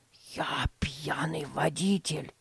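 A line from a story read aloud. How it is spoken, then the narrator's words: Secretive whisper. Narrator (Russian): прошептал, чтобы не услышали родители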